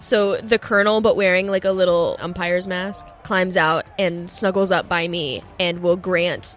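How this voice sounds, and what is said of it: Usual voice. Nothing is said of it.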